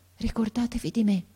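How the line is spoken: Boy's breath-faint murmur. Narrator (Italian): mormorò ancora il ragazzo con una voce che pareva un soffio

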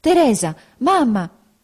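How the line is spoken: Agitated voice exclaiming. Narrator (Italian): una voce alterata esclamò dietro la carrozza

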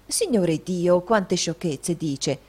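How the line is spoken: Woman exclaiming. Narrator (Italian): esclamò la signora Lillywick

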